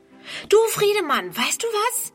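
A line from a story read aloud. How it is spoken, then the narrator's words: Calling out. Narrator (German): ruft sie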